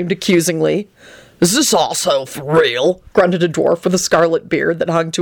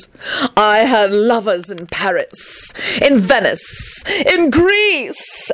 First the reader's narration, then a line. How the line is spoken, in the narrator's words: Antonin howled tragically